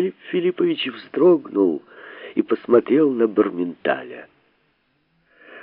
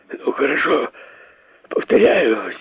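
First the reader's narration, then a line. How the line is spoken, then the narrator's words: Hoarse, astonished. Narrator (Russian): сиплым голосом ответил совершенно пораженный Шариков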